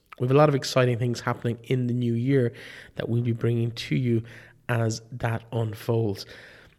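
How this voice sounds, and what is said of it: Voice sounds ill, like a cold. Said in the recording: “as you can probably hear in my voice, I've just been coming over a severe dose of man flu. I'm not quite over it yet”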